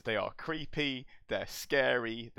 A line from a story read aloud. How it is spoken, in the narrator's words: they scream